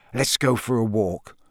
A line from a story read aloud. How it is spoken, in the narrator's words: Ron muttered to Harry